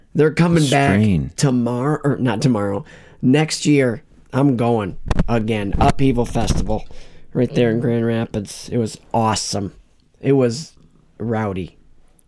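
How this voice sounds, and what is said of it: Strained, worn-out voice. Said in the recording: “I can hear your strain ... my voice is going to sound”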